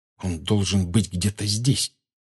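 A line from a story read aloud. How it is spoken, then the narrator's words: Whisper. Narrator (Russian): прошептал Гарри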